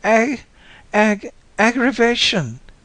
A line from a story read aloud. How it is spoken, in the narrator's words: She began to bawl in earnest